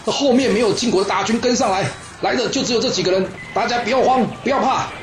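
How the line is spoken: Shouting. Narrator (Chinese): 公子无地大声喊着说

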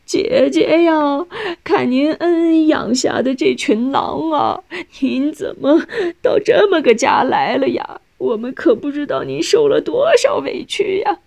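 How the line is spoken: Dry wailing. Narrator (Chinese): 她的哭只是干嚎，并没有眼泪

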